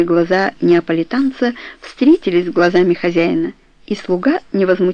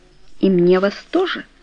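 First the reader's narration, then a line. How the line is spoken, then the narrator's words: Soft. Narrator (Russian): мягко сказал Сфорца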